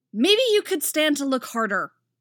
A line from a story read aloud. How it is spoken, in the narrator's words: she barks